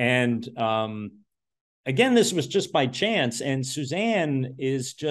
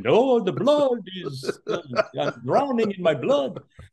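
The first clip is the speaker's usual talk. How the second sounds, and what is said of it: Horrible put-on Dracula accent. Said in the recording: “a Dracula bit ... doing this horrible accent.”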